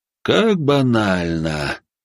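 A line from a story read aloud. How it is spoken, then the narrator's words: Disappointed sigh. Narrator (Russian): разочарованно вздохнул архитектор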